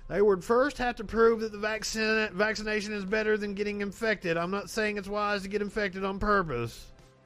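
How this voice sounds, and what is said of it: Imitates another person's voice. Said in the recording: “I can do a Paul impersonation”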